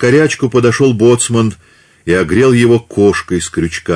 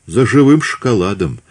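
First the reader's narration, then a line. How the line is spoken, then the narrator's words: Quiet. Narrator (Russian): тихо ответил тот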